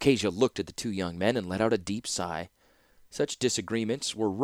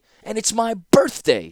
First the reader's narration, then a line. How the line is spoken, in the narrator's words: shouted Mishra, the blood rising to his face